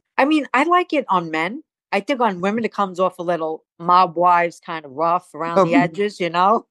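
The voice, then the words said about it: Staten Island New York accent. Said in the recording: “I love my accent. I don't ever want to lose it ... Staten Island has a very heavy accent, very heavy.”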